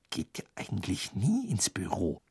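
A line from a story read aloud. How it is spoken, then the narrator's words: Sudden whisper. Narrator (German): flüsterte Hermine plötzlich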